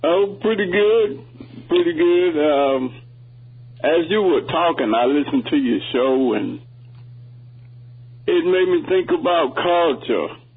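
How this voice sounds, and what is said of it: Southern American accent. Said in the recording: “I love that southern accent.”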